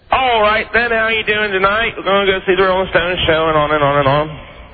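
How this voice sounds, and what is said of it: Put-on British accent. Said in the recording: “Would you just give us a taste of your British accent? ... Had a little bit of that going.”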